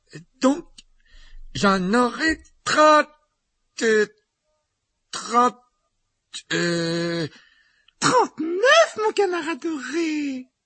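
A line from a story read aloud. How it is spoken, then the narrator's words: Slow speech. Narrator (French): il dit lentement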